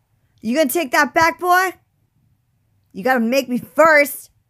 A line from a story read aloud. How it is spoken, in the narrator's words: he yelled